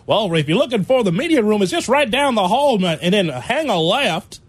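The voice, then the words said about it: Put-on Kentucky Southern accent. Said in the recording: “you and I speak in a Midwestern Chicago accent ... Now I'm in Kentucky.”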